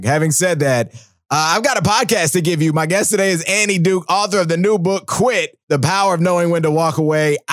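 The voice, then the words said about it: Sick, under-the-weather voice. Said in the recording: “As you can hear from my voice, I'm a little bit under the weather ... sick as fuck”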